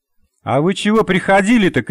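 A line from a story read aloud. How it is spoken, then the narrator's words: Shout after them. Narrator (Russian): крикнула им вдогонку Надя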